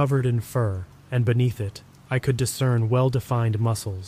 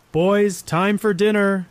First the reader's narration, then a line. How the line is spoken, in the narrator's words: she called out